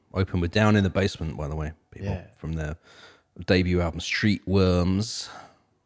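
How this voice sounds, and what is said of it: Speaks with a noticeable accent. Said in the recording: “I hope you understand what I say when I say worms in my accent.”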